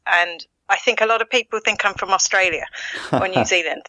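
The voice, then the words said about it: Essex English accent with Irish mix. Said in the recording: “I sense from your accent, you might not be from around these parts ... originally from Essex in England ... the Essex accent has a bit of a twang to it ... mix that with a bit of an Irish accent and it's just gone weird on me”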